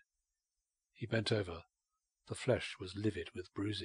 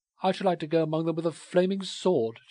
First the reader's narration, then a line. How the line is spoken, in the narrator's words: she cried